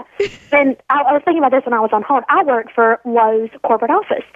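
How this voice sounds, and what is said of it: Southern American accent. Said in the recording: “I speak Southern ... it's just that Southern accent you have”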